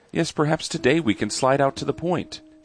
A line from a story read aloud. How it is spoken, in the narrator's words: replied sweetly